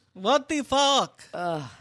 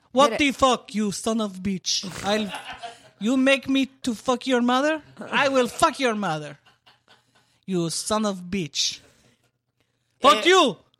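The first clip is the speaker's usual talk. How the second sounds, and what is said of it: Poor put-on Russian accent. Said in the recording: “My Russian accent is absolutely terrible”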